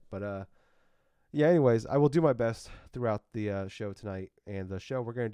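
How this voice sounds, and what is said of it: Voice weakened from a cold. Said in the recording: “I am dealing with the cold, so I apologize for my voice there ... it's not 100% back yet”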